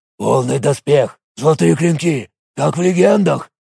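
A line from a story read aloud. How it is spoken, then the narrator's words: Crowd whispering. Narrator (Russian): шептались ее бойцы, да и противник тоже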